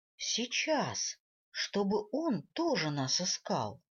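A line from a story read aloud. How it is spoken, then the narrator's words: Soft sad smirk. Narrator (Russian): Шрайк мягко и грустно усмехнулся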